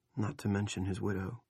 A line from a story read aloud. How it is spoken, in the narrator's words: Rusty said softly